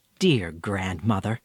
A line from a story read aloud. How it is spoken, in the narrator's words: Nancy said softly